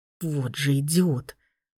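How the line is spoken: Whisper. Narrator (Russian): прошептал

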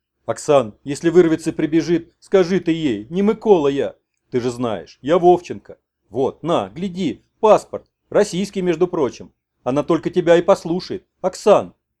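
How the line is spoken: Sudden pleading. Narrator (Russian): И вдруг взмолился

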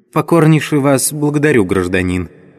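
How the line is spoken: Sad little man. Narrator (Russian): также грустно сказал человечек

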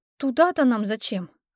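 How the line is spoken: Sighing. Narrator (Russian): вздохнула я

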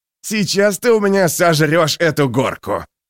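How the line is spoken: Roar. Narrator (Russian): проревел Гловард

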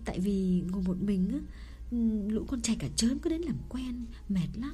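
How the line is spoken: Low quiet voice. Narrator (Vietnamese): Nàng hạ giọng nhỏ hẳn xuống

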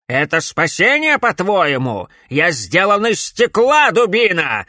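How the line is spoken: Angry bark. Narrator (Russian): рявкнул директор

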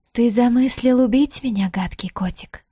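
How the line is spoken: Distant hissing vampire. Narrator (Russian): зашипела вампирша с другого конца крипты

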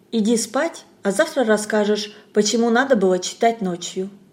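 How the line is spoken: Gentle affectionate. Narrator (Russian): Тамара Сергеевна ласково сказала

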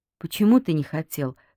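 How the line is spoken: Plain. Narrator (Russian): спросила она

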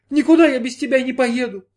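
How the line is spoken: Sobbing. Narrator (Russian): снова зарыдала Джанна

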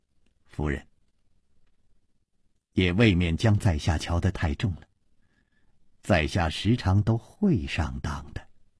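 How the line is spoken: Laughing, hiding surprise. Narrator (Chinese): 心里吃了一惊，嘴里却笑着说

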